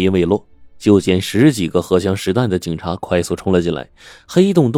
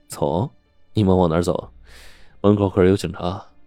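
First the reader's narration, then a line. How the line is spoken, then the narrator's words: Sudden laugh. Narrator (Chinese): 刘强突然笑了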